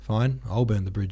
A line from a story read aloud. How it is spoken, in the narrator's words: he said in a weary tone, as if to announce that despite all the bullshit he'd had to endure, he would still do the right thing